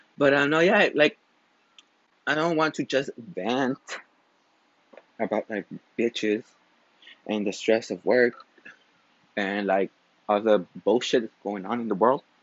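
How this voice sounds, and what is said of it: Out of breath. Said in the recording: “this is why I'm also out of breath”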